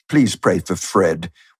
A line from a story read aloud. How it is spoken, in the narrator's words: we murmur piously